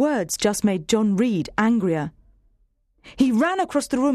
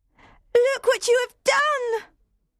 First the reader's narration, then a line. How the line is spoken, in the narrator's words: cried